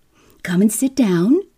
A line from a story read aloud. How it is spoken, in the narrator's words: she cried